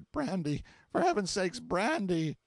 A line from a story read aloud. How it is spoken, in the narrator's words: between the gasps ejaculated